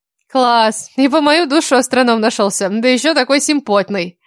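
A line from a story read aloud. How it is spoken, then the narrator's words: Ringing laughter. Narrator (Russian): Заливисто засмеялась Кира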